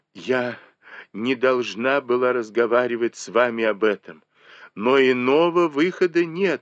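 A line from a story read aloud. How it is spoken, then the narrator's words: Exclaiming. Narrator (Russian): воскликнула Сижень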